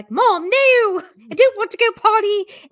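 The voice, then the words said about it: Put-on British accent dog voice. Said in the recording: “Harry has a British accent.”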